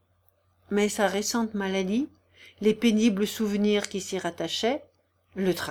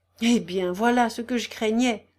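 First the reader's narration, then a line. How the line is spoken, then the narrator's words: Exclaimed. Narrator (French): s'écria le prince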